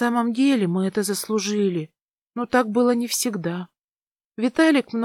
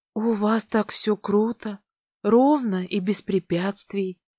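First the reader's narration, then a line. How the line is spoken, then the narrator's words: Envious sigh. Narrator (Russian): завистливо вздохнула я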